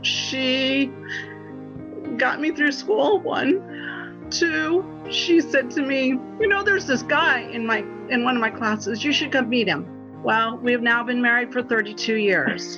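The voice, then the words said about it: Emotional, choked-up voice. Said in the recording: “Whew, sorry, didn't know that I was going to get emotional.”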